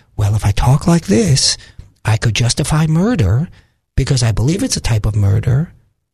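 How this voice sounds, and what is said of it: Calm impression of a woman. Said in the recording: “let me see if I can do my impersonation of her ... if she says it calmly”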